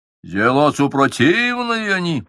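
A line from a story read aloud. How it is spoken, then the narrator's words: Low boom. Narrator (Russian): прогудел тот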